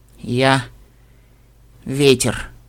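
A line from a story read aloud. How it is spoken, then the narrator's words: Trembling voice. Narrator (Russian): дрожащим голосом начала Лиза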